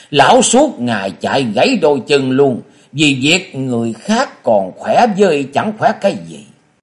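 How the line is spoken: Loud laughing. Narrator (Vietnamese): Quái Khiếu Quá cười to nói

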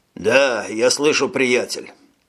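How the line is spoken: Hoarse reply. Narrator (Russian): хрипло отозвался майор

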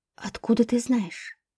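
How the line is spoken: Whisper. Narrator (Russian): прошептала я

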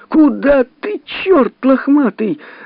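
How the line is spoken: Desperate scream. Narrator (Russian): закричала отчаянно Зина

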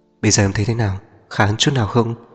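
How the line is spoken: Tender, doting voice. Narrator (Vietnamese): giọng nói dịu dàng cực kỳ cưng chiều

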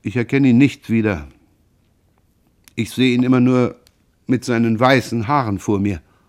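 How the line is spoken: Sad voice. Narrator (German): Jean sagte dann mit trauriger Stimme

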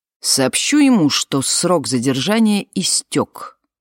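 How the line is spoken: Through gritted teeth. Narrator (Russian): ответила она сквозь зубы

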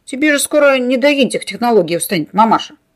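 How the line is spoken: Smirking snort. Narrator (Russian): хмыкнул он

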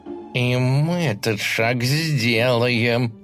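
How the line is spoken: Hissed through teeth. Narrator (Russian): сквозь зубы прошипел он

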